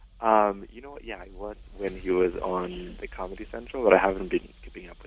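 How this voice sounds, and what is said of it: Speaking very softly, hushed. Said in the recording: “you're talking really softly ... You sound like you're doing something illegal.”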